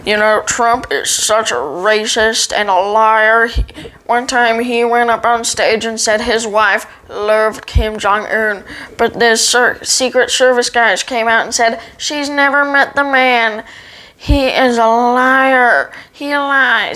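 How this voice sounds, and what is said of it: Imitates another person's voice. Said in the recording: “I'm going to do an impression of him... I do a great impression of him... They say it's really good”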